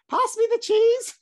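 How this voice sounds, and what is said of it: High-pitched put-on grandfather voice. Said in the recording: “I don't know why granddad's speaking a high voice.”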